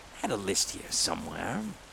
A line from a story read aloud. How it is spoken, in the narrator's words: he murmured